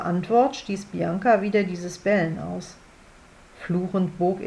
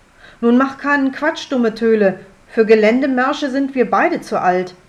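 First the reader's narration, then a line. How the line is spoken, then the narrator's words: Bellowing after someone. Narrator (German): brüllte hinterher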